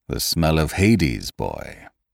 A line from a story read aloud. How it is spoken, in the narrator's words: he said grimly